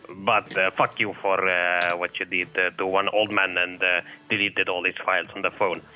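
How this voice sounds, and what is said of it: Slight accent. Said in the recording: “Guy had a bit of an accent.”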